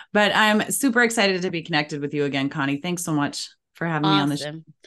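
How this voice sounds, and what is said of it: Low voice with a cold. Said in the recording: “I'm a little under the weather. I've got a little bit of a cold, so I've got my low radio voice”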